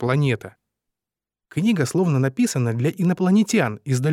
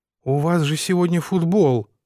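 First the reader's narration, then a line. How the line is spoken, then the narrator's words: Breathed out. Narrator (Russian): выдохнул я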